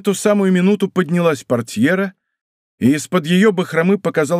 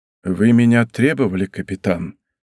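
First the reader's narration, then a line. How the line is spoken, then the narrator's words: Weak but calm voice. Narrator (Russian): сказал Атос де Тревилю, ослабевшим, но совершенно спокойным голосом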